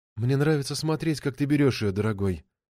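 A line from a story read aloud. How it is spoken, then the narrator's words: Whispered. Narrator (Russian): шепнула она Матео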